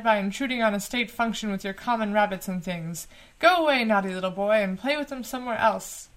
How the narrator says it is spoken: he cried

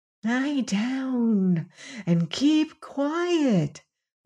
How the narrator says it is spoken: whispered the cat warningly

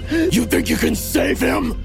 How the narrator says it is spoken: He growled

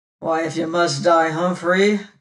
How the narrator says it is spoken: growled the bony man

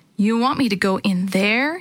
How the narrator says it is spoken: he asked

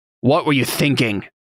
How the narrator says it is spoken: Cantarius said, his tone hostile

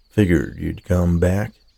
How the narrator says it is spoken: he said

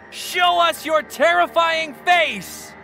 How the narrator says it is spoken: Then Charles shouted

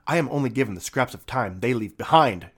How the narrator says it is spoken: snapped back

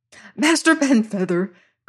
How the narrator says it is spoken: cried

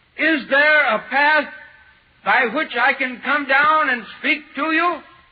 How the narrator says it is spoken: And I shouted

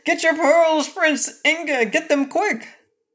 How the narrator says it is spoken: King Rinkitink suddenly cried out

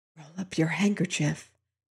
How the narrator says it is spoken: Hewitt whispered

